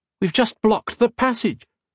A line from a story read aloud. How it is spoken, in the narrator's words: he cried out